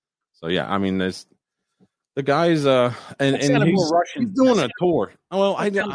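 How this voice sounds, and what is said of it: Usual voice. Nothing is said of it.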